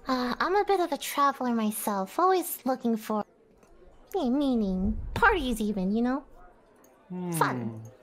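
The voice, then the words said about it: Unfamiliar put-on accent. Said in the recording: “I don't quite recognize your accent”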